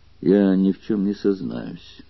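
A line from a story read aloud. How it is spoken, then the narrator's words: Grim and menacing. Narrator (Russian): произнес мрачно и угрожающе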